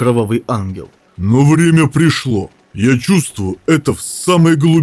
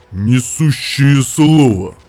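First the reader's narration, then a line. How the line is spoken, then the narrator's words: Through gritted teeth. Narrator (Russian): процедил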